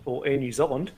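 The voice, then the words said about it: Put-on New Zealand accent. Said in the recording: “if you want the accent”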